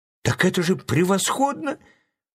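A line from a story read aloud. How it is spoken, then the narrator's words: Exclaimed. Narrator (Russian): воскликнул Чарли Блэк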